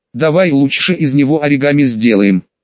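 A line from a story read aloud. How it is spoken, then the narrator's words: Plain. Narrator (Russian): ответил я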